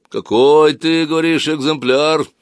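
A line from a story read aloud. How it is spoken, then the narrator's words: Very low booming bass. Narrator (Russian): спросил он очень низким гудящим басом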